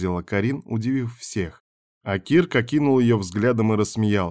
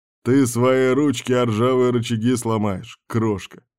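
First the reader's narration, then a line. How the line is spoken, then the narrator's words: Reply after laughing. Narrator (Russian): ответил он, отсмеявшись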